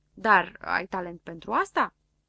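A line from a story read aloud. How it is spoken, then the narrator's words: Plain. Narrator (Romanian): întrebă Floricică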